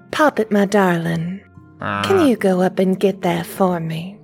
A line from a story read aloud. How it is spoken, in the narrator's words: whisper in his ear